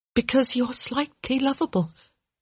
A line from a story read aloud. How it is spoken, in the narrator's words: Hyacinth said, her voice catching in the oddest manner